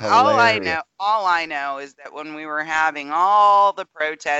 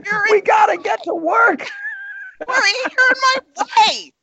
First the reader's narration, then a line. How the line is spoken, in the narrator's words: he screams again